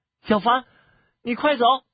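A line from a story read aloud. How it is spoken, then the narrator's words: Urgent shout. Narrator (Chinese): 急声的喊着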